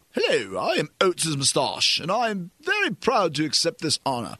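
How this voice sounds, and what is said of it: Regal, pompous British-accented character voice. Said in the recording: “a very regal-sounding voice ... Why he has a British accent, I'm not sure, but he's kind of pompous.”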